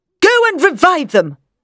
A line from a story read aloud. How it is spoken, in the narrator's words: the professor said angrily